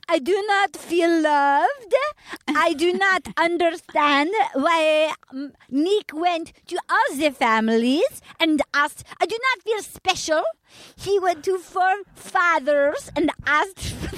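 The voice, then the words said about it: Imitates another person's voice, put-on accent. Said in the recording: “hear my impression of her? ... I'm so good at accents. ... It's really good. ... Where did you study accents? ... That is the best I can do. That is like, I'm not even trying to be bad.”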